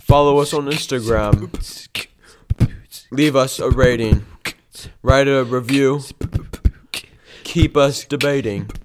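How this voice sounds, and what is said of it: Put-on British accent. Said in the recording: “Everyone has to do a British accent. ... Freestyle British. ... In British.”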